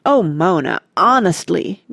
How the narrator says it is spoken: groaned Randy

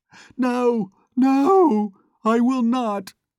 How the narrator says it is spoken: she shrieked in a loud and heart-rending voice

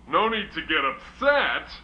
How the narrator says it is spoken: the king roared

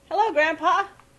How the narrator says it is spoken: he shouted

